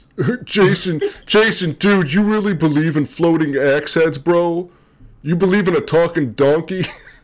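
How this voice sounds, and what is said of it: Mocking skeptic character voice. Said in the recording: “do my best atheist voice that you just used”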